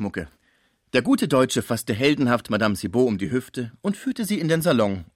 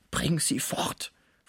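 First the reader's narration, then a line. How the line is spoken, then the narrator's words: Whisper in ear. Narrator (German): flüsterte Pons in das Ohr Schmuckes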